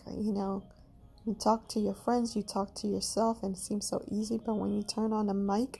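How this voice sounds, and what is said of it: Caribbean accent. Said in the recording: “my Caribbean accent comes to head”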